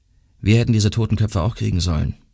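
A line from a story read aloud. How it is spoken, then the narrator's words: Plain. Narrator (German): sagte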